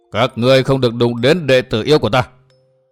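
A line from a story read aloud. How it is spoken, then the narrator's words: Booming deep voice. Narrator (Vietnamese): một thanh âm ồm ồm vang động cục trường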